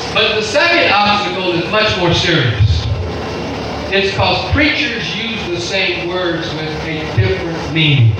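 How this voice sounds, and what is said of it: Strange accent. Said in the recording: “my accent is very strange”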